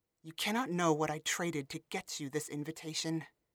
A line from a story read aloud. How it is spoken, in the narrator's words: Lyron hissed